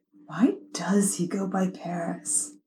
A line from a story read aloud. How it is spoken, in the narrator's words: Dio whispered